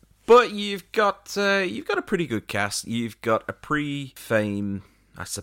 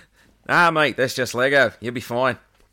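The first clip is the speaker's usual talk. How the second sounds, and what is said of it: Put-on Australian accent. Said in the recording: “talking in an Australian accent”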